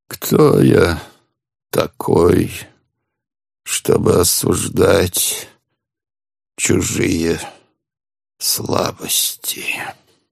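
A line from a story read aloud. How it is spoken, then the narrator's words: Mumbled. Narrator (Russian): Промямлил Порфирий Петрович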